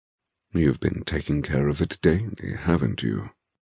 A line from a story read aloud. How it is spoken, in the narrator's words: He murmurs